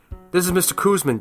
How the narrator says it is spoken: Dad said, his voice shaking

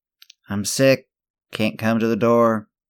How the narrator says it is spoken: Sam called out from his bed

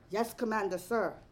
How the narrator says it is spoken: the child soldier shouted

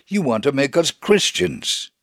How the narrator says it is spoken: with anger and began to shout

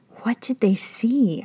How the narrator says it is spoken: I whispered

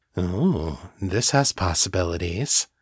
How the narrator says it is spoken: purred

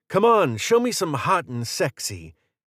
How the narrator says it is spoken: Aaron ... shouting

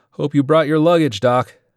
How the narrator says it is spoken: Harris yelled over the engines

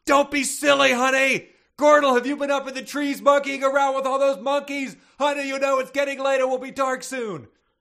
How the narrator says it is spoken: Glenda Gorilla yelled from Bubo's nursery

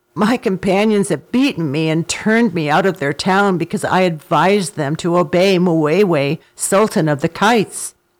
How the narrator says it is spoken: With many a moan, he replied

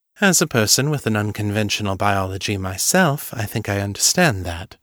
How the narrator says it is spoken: Morgan said dryly

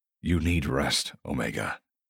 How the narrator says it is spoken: murmurs

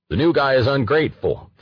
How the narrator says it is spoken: thundered the prosecutor

